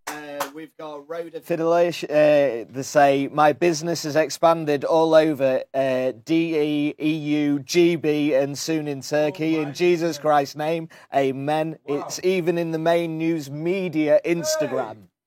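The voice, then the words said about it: Noticeable accent. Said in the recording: “I like your accent.”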